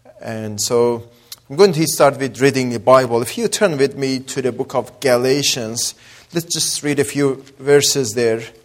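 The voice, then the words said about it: Mixed Azeri, Persian and Australian accent. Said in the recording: “accent. It comes from Azeri, mixture of Persian and Australian accent. Mix them all together, so that's my accent. ... Azeri, Persian, and Australian.”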